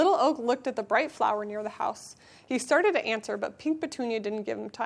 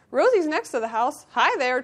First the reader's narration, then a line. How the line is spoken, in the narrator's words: chirped Rosie